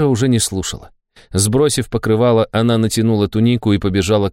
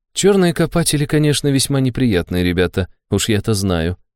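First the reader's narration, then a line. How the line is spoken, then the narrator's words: Grim chuckle. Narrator (Russian): мрачно усмехнулась Нера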